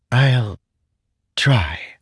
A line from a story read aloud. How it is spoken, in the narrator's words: Syl said with a sigh